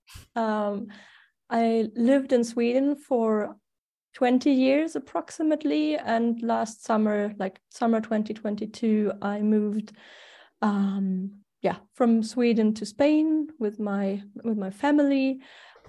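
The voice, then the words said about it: German accent in English. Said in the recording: “I was born in Germany, so that's the funny accent I cannot get rid of”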